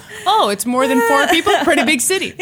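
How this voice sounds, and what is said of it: Imitates another person's voice. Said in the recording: “that was my Norman impression”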